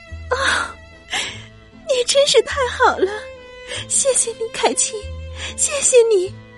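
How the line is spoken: Choked with tears. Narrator (Chinese): 德兰太太哽咽的说

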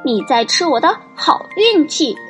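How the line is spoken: Angry shout. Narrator (Chinese): 小个子先生生气的大喊

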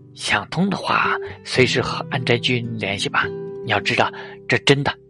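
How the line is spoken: Soft. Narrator (Chinese): 宫泽喜二……轻声说了一句

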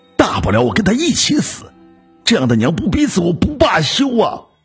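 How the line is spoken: Breathless roar. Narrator (Chinese): 金川气吁吁的大吼

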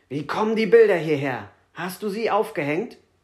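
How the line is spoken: Furious shout. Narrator (German): Herr Schwarz bekam einen Anfall und rief wütend

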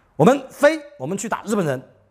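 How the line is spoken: Angry rallying call. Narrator (Chinese): 怒气冲冲地…招呼自己的四大队的同仁

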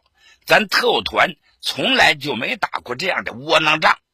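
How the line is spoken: Angry. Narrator (Chinese): 团长杨家瑞怒道

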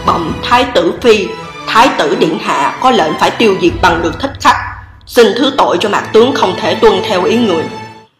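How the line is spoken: Soft reply. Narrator (Vietnamese): Bùi Chiếu khẽ đáp

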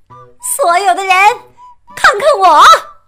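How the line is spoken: Loud shout. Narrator (Chinese): 大叫

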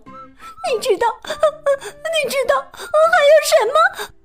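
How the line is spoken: Sweet, smiling. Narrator (Chinese): 甜甜的笑着说

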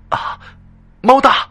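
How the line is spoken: Delighted cry over phone. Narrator (Chinese): 电话中男生惊喜的叫起来了

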